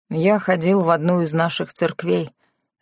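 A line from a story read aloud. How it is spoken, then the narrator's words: Plain. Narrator (Russian): ответил он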